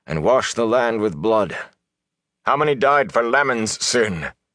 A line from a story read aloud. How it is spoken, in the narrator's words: Tam said suddenly, in a strong, angry voice